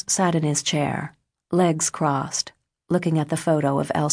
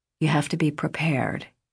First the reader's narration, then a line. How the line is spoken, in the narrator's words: he told Deborah, his voice gentle